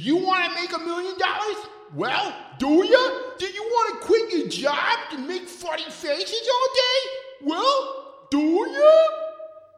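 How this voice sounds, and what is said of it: Bad impersonation of a comedian's voice. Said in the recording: “a bad Adam Sandler impersonator”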